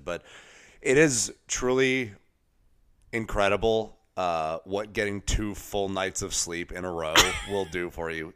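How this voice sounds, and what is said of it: Slightly scratchy, congested voice. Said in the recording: “my voice is still a little scratchy. I'm still very slightly congested.”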